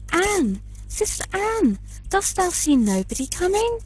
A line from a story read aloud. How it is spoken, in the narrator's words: said his wife, and then she cried out